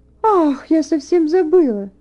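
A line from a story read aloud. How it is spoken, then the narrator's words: Self-reproachful exclamation. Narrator (Russian): воскликнула она, словно негодуя на себя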